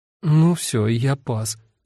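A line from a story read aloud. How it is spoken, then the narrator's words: Uncertain mumbling. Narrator (Russian): Эва неуверенно бормотала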